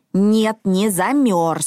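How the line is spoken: Angry reply. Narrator (Russian): сердито ответил Мортон

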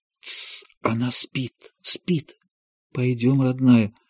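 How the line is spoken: Quiet half-asleep murmur. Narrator (Russian): Аня тихо в полусне

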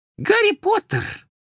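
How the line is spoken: Excited squeak. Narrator (Russian): пропищал, взволнованный голос

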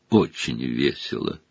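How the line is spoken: Gloomy. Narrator (Russian): мрачно произнес почти безголовый Ник

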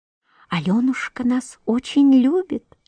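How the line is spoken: Whispering flowers. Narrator (Russian): шептали фиалки

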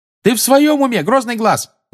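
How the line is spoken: Yelled. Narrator (Russian): заорала Тонкс

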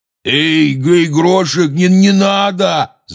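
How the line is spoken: Shouted. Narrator (Russian): закричал Хагрид

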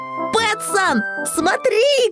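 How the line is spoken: Shout. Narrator (Russian): крикнул Финдус

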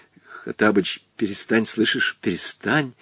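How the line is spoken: Urgent whisper. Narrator (Russian): зашептал был Волька

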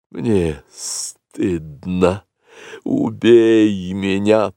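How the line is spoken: Hissing cobra. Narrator (Russian): прошипела белая кобра

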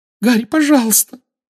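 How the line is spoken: Weak squeak. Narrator (Russian): слабо пискнула Гермиона

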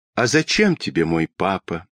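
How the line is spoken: Sad, surprised question. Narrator (Russian): грустно и удивленно спросила Тома

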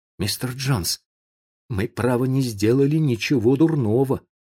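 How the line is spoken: Timid. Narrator (Russian): сказал он робко

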